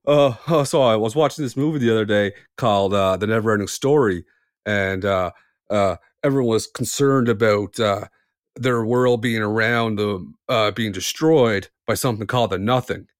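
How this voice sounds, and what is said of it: Imitates a TikTok comedian's voice. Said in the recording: “my impression? ... Of a TikTok comedian?”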